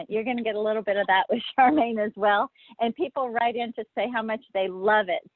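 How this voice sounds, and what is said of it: Louisiana accent. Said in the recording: “you all know I'm from Louisiana. I have the accent.”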